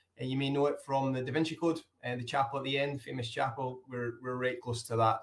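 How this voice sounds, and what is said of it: Scottish accent. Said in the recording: “as you'll hear by my accent, it's from Scotland”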